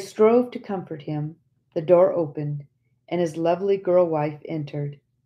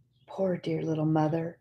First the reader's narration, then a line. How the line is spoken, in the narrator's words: while his form shook with convulsive sobs